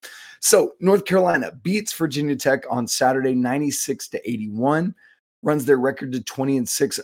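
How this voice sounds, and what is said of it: Rough, hoarse voice. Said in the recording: “you can hear it. I apologize for my voice... thanks for your patience with my voice. I feel like I'm ready to sing Smelly Cat”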